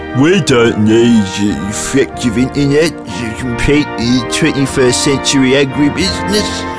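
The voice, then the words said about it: Stupid farmer character voice. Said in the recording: “That was my farmer's a stupid voice.”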